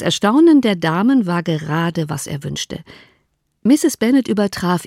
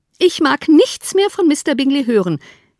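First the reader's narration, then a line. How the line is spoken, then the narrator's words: Calling out. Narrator (German): rief Mrs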